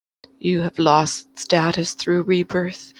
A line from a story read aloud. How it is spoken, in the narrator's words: she said gravely